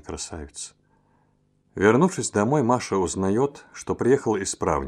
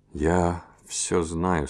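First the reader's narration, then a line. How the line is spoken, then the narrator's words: Quiet, sad voice. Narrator (Russian): сказал он тихим и печальным голосом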